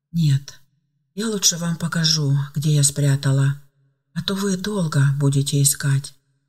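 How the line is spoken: Sighing. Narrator (Russian): вздохнула Ева

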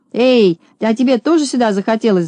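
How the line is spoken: Shouting. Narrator (Russian): закричал он

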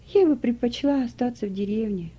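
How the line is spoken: Sighing. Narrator (Russian): вздохнула Трина

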